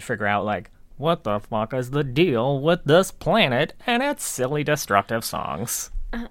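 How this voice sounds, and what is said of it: Imitates another person's voice. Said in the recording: “Is that a Seinfeld impression?”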